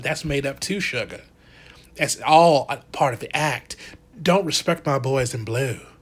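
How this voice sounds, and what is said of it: Put-on Southern accent. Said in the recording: “my little uh, accent, my southern accent”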